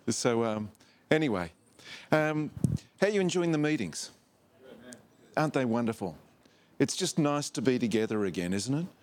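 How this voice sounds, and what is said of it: Australian accent. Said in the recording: “this accent of mine ... I was born with it ... originally from Australia”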